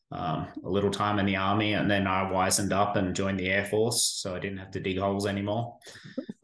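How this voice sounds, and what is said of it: Australian accent. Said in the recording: “obviously the accent's a little far away from here. So grew up in Australia”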